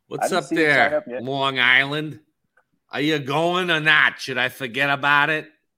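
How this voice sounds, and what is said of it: Deliberately bad New York accent. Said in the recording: “I do a terrible New York accent”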